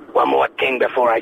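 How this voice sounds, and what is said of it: American accent Lieutenant Columbo impression. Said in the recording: “In the American accent, Lieutenant Columbo.”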